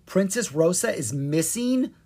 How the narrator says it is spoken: Kara cried

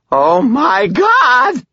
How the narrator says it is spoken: Butters screamed

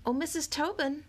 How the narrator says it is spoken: Akimi called out

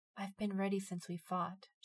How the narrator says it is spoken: she whispered

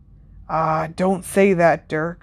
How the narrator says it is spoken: murmured Ted

